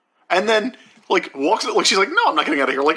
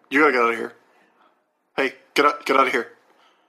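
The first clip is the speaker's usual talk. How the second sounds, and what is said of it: Kevin Owens impression. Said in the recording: “my Kevin Owens impression”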